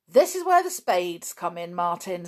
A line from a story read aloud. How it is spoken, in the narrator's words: said Dick cheerfully